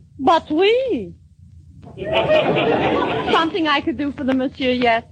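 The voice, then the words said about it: Peculiar put-on French accent. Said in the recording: “You have the most peculiar accent”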